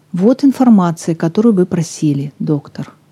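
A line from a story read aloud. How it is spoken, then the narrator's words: Even tone. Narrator (Russian): сказала она ровным голосом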